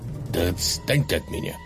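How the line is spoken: Weary irritated hiss. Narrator (Russian): зашипел Кэл Иван, который страсть как устал от этого книголюба

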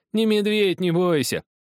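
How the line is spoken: Laughing. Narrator (Russian): Захар рассмеялся

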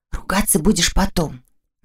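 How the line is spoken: Whispered command. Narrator (Russian): шепотом велела она

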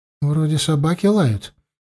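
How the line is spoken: Uncertain. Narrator (Russian): неуверенно проговорил мозаика

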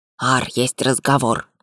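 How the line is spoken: Whispered. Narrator (Russian): шепнул Белка

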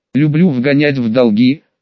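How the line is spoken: Wry snort. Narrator (Russian): хмыкнул я

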